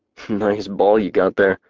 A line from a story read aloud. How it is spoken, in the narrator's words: Dash muttered